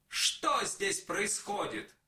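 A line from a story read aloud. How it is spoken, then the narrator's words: Shouting. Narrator (Russian): папа закричал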